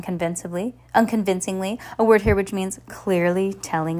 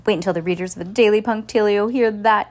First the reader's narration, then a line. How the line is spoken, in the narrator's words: gasped Geraldine